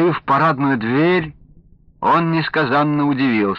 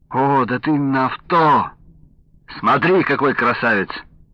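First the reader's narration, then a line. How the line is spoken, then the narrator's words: Cheerful reply. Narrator (Russian): весело отозвался Павел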